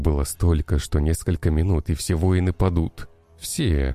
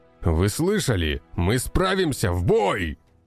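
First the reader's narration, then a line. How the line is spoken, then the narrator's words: Commander shouting. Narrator (Russian): Выкрикнул командир охраны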